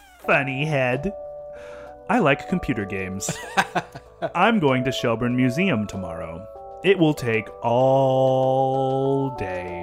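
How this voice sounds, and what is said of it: Attempted baby voice. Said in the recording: “in this attempted baby voice”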